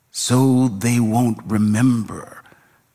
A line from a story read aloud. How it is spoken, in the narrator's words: said